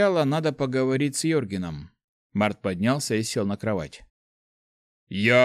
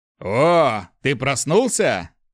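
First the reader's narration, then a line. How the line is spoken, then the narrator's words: Deep bass voice. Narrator (Russian): пробасил Йорген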